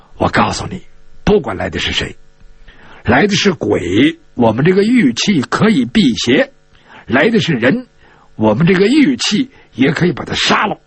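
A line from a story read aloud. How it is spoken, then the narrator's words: Low hushed voice. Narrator (Chinese): 陈家洛 压低了声音跟他说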